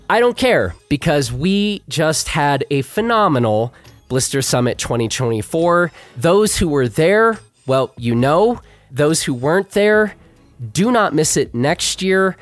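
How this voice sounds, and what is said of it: Hoarse, worn-out voice. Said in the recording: “I started losing my voice a bit ... my voice is kind of shot”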